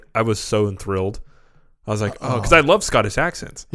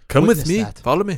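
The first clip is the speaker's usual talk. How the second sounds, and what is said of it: Bad put-on Scottish accent. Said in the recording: “I'm doing terrible Scottish accents ... you're basically doing Mike Myers doing a Scottish accent”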